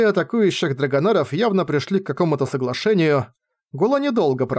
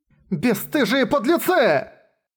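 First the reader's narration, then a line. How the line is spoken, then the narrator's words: Furious, alarmed shout. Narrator (Russian): Со смесью ярости и тревоги закричала Улин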